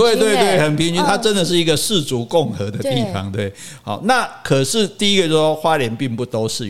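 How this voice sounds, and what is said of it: Usual voice. Nothing is said of it.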